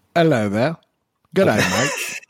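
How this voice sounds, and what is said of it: Put-on Australian accent. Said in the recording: “let's go down under. you got your accent ready for me? ... Perfect, perfect, perfect. You've even got the regional dialect for where we're going.”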